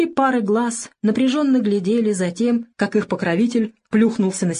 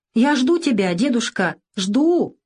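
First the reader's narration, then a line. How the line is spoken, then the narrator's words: Anxious child shouting. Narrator (Russian): кричала Леночка, словно ощущая своим маленьким сердечком, что над ее дедушкой нависла беда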